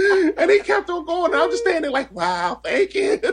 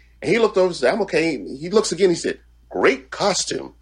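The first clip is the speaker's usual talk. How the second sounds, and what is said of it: Imitates another person's voice. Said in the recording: “great Stan Lee impersonation”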